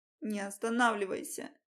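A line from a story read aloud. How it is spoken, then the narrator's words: Tearful moaning. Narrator (Russian): со слезами стонала я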